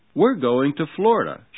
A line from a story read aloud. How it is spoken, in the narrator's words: she said brightly